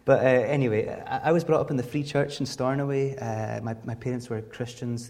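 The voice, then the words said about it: Outer Hebrides Scottish accent, fading. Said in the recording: “I was brought up on the Isle of Lewis, hence my accent, which I've been told is now fading away ... I'm definitely from the Outer Hebrides”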